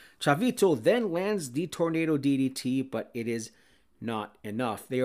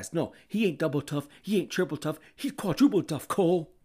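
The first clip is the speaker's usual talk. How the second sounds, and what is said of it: Poor Taz impression. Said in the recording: “Sorry for all you Taz fans and that awful impersonation.”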